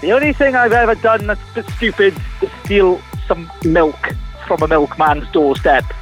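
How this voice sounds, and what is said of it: Welsh accent. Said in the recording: “you're playing on my accent ... you were Welsh”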